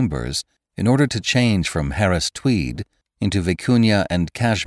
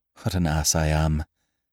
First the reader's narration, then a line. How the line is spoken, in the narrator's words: he muttered